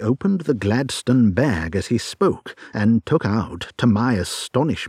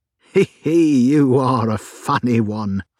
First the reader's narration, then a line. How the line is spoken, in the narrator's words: chuckled the inspector